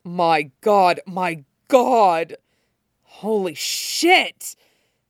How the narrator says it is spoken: Shota snarled

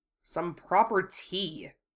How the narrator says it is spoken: Wufei grunted

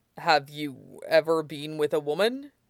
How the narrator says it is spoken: He asked hesitantly, worrying he might seem like a provocateur

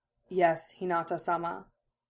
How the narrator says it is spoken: Neji murmured

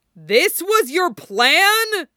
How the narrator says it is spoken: Bucky roared

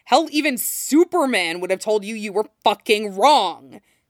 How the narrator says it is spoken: Jason snapped

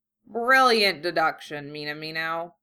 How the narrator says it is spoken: Genkai replied dryly, smirking

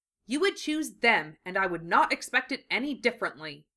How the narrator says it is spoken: Lee said, staring sternly

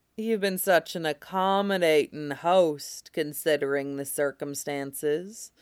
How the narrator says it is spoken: Marco purred

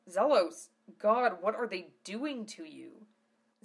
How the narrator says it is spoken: Zell cried out in a combination of concern and anger

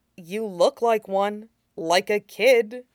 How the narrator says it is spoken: Shinzo said slowly, like he was trying to figure it out

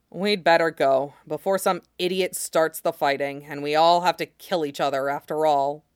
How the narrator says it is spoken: Rob sighed and said

